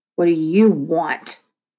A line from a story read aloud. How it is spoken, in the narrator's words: Malcolm snarled